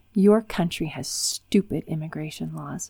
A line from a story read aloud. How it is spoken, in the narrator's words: she spat bitterly